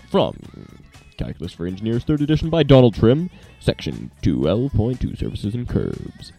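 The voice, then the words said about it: Put-on DJ radio voice. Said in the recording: “Let's do some more DJ voice stuff here. ... Just want to do my voice. I could just talk like that all day, but then, well, I'm creepy enough as it is.”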